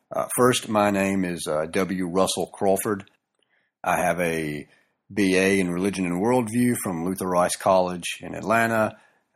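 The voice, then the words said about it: Southern American accent with drawl. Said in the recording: “my southern accent and or drawl”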